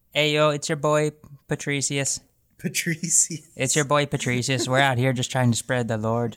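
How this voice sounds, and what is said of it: Put-on Irish accent. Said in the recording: “I'm doing this accent, but really he is Latin. ... He's not Irish.”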